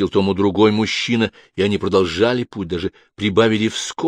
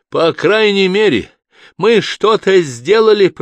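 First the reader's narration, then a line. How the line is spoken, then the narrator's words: Shouting after them. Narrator (Russian): прокричала она им вслед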